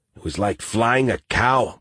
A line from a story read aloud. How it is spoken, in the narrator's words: Martinez grumbled